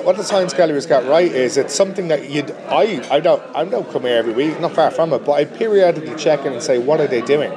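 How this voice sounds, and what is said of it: Dublin accent. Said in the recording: “you have a Dublin accent”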